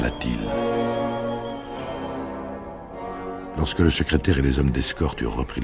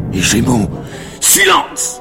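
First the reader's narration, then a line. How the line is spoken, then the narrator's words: Shouted. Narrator (French): cria Pilate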